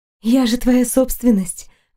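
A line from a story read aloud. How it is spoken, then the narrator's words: Breathless, clipped exhale. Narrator (Russian): выдохнула отрывисто, чувствуя, как он притягивает меня к себе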